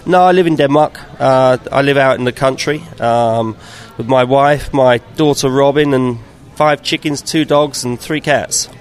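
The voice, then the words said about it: Southern English accent. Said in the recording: “that accent, are you from the South? ... I'm from London-ish. Yeah, I am from the South.”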